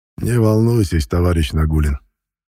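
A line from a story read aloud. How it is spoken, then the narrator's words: Almost gentle. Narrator (Russian): почти ласково произнес нарком внутренних дел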